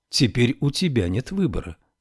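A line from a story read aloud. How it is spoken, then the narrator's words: Calm. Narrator (Russian): спокойно сказал Ной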